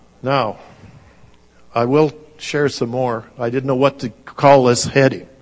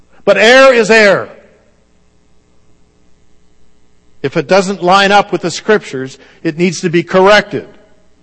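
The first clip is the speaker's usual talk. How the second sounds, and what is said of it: Raised, yelling voice. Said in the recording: “Sorry for raising my voice. ... Because yelling doesn't get a point across.”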